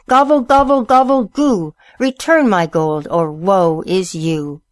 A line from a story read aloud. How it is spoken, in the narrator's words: He cried